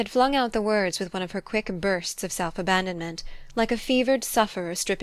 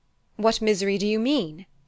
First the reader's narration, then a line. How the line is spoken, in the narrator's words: he exclaimed